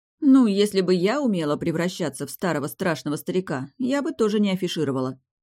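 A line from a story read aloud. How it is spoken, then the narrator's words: Smirking. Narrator (Russian): хмыкнула я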